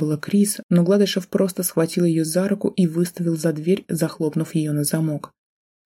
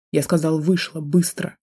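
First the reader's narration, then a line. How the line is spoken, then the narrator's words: Growling. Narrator (Russian): прорычал он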